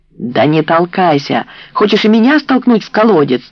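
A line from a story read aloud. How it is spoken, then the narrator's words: Yelling. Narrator (Russian): завопила Люцина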